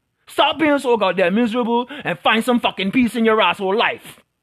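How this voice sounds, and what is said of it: Raised, shouting voice. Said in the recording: “raising my voice.”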